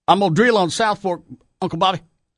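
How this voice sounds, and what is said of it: Exaggerated bad Texas accent. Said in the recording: “They've got bad accents... Nobody talks like that. If it stands out as a bad accent to somebody born in Texas, it's bad.”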